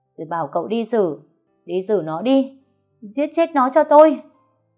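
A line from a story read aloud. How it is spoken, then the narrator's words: Screaming. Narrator (Vietnamese): gào lên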